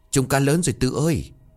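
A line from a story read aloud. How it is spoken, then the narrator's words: Breathless, delighted. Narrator (Vietnamese): Tèo vừa thở hổn hển vừa mừng rơn bảo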